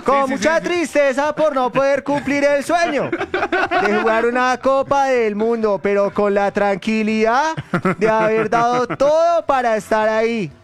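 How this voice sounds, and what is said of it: Put-on Argentine accent. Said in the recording (Spanish): “¿Quién quiere hacer la voz de Borré? ... Como ¿y si argentino? Lo hago así?”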